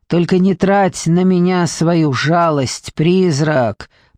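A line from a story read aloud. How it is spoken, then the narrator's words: Hissed through teeth. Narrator (Russian): процедила она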